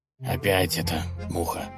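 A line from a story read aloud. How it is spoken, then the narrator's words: Irritated growl. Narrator (Russian): раздраженно прорычал князь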